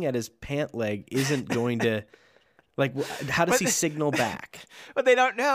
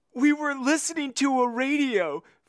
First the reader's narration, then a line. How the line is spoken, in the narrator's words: Frank blurted out